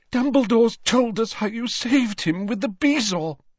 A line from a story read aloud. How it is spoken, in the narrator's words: sobbed